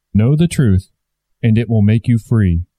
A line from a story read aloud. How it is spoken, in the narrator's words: said the Christ